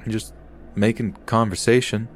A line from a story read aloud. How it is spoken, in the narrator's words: saying back to him, shifting nervously